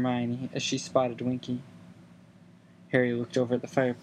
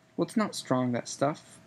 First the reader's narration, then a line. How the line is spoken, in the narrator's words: said Harry